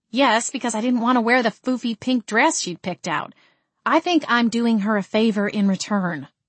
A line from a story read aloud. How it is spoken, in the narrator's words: said